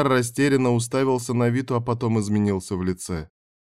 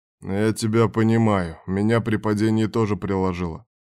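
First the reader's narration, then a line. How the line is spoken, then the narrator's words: Sighing. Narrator (Russian): вздохнул Берг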